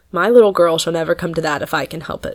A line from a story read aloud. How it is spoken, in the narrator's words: said Mr